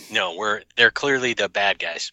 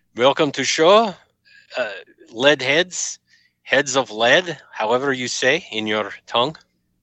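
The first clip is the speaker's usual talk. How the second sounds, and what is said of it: Russian-style character voice. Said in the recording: “Do it in your Boris voice then, with an English accent”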